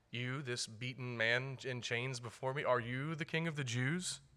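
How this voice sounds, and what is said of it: Sarcastic tone. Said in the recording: “said that sarcastically”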